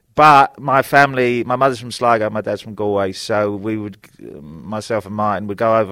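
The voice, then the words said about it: London accent, not very Irish. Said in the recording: “maybe you might sound a bit Irish, London Irish ... frankly, you don't sound very Irish”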